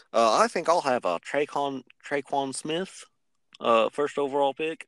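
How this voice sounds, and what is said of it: Imitates another person's voice. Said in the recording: “that was a very good impersonation of somebody”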